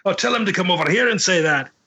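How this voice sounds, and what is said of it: Put-on Scottish accent. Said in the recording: “English writers writing about Scots ... Oh, very good accent.”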